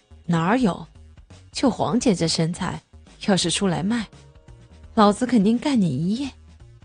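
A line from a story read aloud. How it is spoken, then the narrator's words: Laughing. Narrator (Chinese): 刘明笑着说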